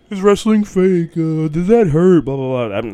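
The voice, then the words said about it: Imitates another person's voice. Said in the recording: “That's my impression of Elio at this point.”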